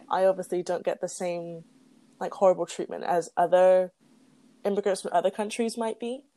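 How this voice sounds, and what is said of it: English accent. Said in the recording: “I'm an immigrant from a quote unquote good country like England ... They must have just heard my accent. ... Oh, I love your accent.”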